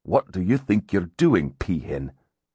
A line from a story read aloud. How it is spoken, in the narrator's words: he snarled